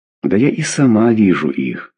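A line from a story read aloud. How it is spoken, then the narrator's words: Sighing. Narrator (Russian): вздохнула Клавдия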